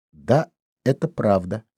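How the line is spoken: Plain. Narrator (Russian): сказала Соня

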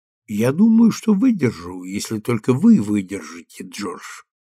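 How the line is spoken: Calm. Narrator (Russian): сказала она спокойно

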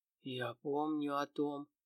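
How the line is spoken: Dry whisper. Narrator (Russian): сухо прошептал мужчина

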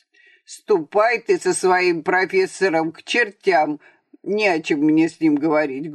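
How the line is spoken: Rude. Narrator (Russian): грубо сказал он Аксенову

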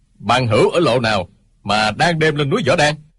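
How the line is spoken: Shout. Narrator (Vietnamese): Tiếng quát

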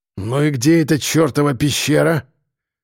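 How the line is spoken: Hoarse curt remark. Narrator (Russian): хрипло бросил кирпич

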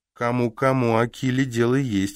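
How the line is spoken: Giggling. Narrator (Russian): хихикает

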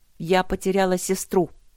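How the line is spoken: Sharp. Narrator (Russian): сказала Огни резко

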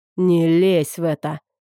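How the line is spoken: Hoarse rasp, killer. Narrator (Russian): прохрипел убийца

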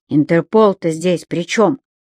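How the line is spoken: Stepfather's scoff. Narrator (Russian): хмыкнул отчим

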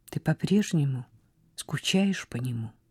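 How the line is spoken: Quiet. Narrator (Russian): тихо спросила Изабель

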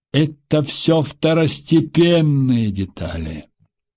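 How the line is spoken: Gloomy, through teeth. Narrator (Russian): хмуро процедил Потапов

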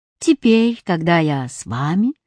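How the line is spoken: Geography textbook, calm. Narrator (Russian): спокойно сказал учебник географии

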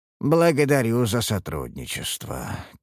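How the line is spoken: Tired. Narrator (Russian): кивнул я устало

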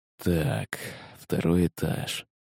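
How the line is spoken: Man muttering under breath. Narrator (Russian): пробормотал под нос мужчина

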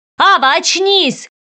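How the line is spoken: Shouted. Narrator (Russian): крикнул кронпринц

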